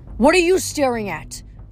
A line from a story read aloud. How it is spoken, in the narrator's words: yelled